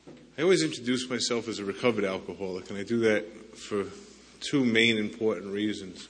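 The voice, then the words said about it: New York accent. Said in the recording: “my accent's from New York”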